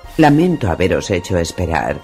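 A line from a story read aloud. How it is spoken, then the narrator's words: Formal tone. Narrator (Spanish): empezó en tono formal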